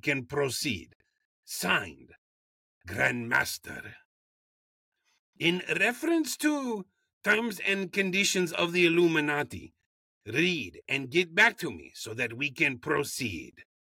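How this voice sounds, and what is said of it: Put-on accent, well done. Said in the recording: “Accent, holy moly. It's gotten so good. ... it's leaps and bounds better than what we did the first episode.”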